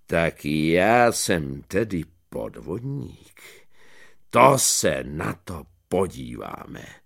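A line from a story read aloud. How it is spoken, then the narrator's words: Deep voice. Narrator (Czech): povídá hlubokým hlasem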